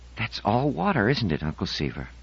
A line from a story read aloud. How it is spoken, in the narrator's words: She said in a whisper